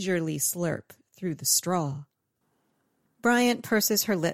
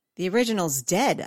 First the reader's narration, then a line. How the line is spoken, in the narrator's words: I exclaim